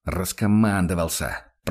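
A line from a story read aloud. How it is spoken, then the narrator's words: Irritated, through gritted teeth. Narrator (Russian): процедил Курт раздраженно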